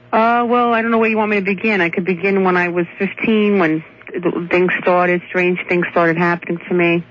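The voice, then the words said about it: New York Brooklyn accent. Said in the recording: “Boy, can I hear the New York in you... I have a Brooklyn accent”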